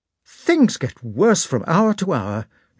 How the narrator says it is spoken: exclaimed Marya Dmitrievna

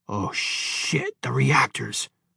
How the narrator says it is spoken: muttered Horowitz

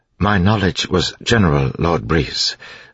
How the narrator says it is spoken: Sazed said in his even voice

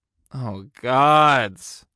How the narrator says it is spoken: I groaned

